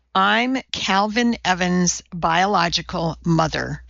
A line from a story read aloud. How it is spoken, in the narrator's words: Avery Parker said slowly, her gray eyes filling with tears